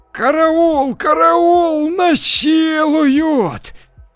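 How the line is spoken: Sudden shriek, strange voice. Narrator (Russian): завопила вдруг София не своим голосом

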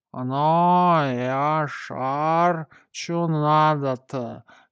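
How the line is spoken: Unfriendly creaky voice. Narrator (Russian): недружелюбно проскрипел

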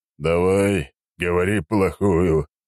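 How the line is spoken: Heavy sigh. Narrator (Russian): тяжело вздохнул Черномор

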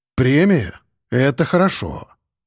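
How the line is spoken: Thoughtful. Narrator (Russian): задумчиво кивнул я

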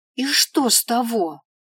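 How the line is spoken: Exclamation. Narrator (Russian): воскликнул он

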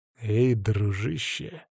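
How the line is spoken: Muttered through gritted teeth. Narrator (Russian): сквозь зубы процедил

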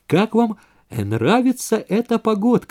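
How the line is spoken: Overly cheerful question. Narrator (Russian): спросил Вейзек, пожалуй, чересчур уж бодро

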